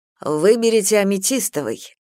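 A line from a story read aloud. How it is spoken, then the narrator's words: Exclamation. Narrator (Russian): воскликнул он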